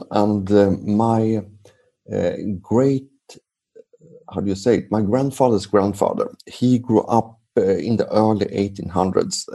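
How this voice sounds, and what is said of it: Swedish accent. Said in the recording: “they may not recognize your accent ... I'm from Sweden”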